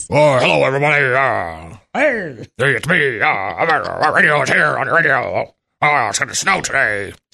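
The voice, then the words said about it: Exaggerated old-time radio announcer voice. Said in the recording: “imitating? ... radio voice”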